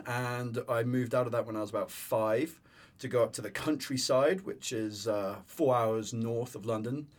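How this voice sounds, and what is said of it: English accent. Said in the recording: “I'm English ... you have an accent.”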